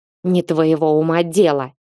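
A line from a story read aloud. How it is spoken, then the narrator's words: Snapping, rude. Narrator (Russian): огрызнулся тот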